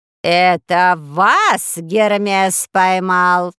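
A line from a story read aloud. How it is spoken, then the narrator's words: Shrill woman's question. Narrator (Russian): спросила женщина пронзительным голосом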